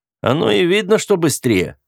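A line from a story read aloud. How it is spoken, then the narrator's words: Snorting. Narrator (Russian): фыркнул я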